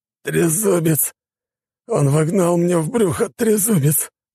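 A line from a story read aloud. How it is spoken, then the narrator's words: Hoarse wheeze. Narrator (Russian): прохрипел Петров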